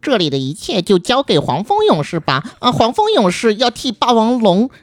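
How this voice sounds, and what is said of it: Imitating the cartoon character 黄蜂勇士. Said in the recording (Chinese): “没错你这个更像。...很像，很像，很像。我小时候觉得他们说话的声音其实特别的怪”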